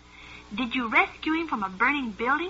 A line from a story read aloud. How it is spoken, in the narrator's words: asked Joey